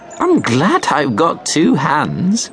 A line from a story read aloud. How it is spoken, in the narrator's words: laughed Granny